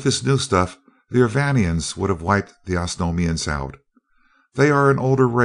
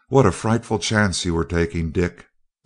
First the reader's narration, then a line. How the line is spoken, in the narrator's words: gasped Dorothy